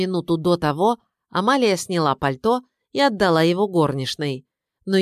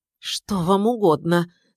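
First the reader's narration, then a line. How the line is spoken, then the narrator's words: Trembling voice. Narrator (Russian): спросила Наталья Дмитриевна подрагивающим голосом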